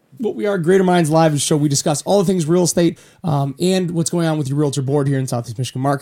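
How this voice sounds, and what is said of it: Worn out, tired voice. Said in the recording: “You'll have to excuse my voice is a little bit worn out today.”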